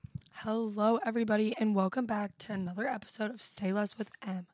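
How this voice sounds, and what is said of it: Sick, hoarse, losing voice. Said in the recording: “As you can tell, I'm very sick. So I'm losing my voice a little bit”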